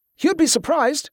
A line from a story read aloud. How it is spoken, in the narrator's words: the young man suddenly called out